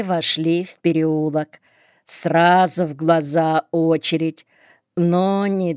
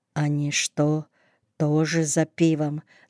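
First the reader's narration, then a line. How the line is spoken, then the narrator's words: Quiet question. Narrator (Russian): спросил тихо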